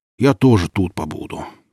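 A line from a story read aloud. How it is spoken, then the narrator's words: Deep bass voice. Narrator (Russian): пробасил Семен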